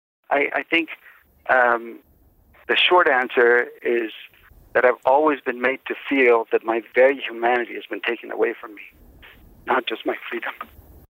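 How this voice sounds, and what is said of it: Strained voice. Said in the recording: “You can hear the strain in his voice.”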